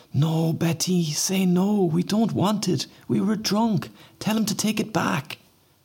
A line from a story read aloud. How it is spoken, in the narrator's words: Pauline scream